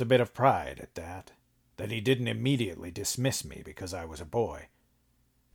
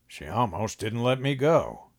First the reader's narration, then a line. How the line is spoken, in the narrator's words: grumbled